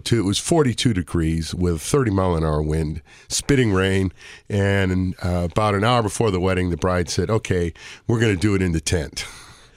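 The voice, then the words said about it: Hoarse, froggy voice. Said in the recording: “my voice is a little froggy this morning”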